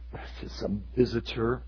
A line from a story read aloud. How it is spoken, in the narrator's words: I muttered